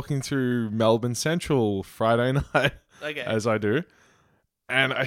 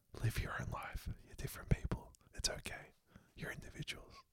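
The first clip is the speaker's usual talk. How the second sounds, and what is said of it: Whispering. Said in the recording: “That's whispering. ... That's not yelling.”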